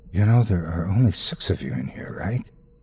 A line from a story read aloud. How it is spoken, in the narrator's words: whispers in my ear